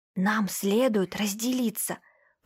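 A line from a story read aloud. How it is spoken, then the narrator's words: Whisper. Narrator (Russian): прошептал Свят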